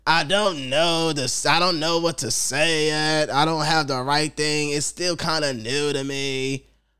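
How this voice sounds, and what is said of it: Imitates another person's voice. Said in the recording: “your impression”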